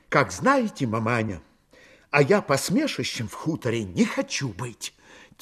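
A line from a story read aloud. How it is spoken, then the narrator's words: Quiet speech. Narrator (Russian): тихо проговорила Дуняшка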